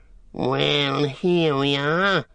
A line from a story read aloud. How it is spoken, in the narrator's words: sneered Grishnak